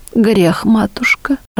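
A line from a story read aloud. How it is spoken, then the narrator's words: Pitiful admission. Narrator (Russian): жалким голосом признала Татищева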